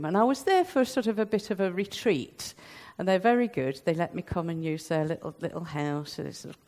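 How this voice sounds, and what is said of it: Nottingham English accent. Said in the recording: “the accent is Nottingham”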